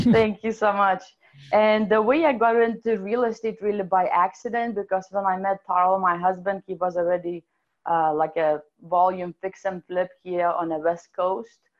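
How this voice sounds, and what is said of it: European Russian-sounding accent. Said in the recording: “my amazing accent is actually European slash Russian”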